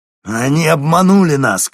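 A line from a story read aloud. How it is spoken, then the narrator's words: Shouting. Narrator (Russian): крикнул он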